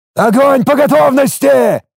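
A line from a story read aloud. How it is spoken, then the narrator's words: Roaring. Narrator (Russian): взревел я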